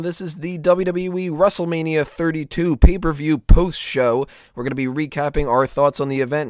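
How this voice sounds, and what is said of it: Sore, strained throat voice. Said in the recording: “You can tell my throat's a little bit sore. Hopefully I don't lose my voice”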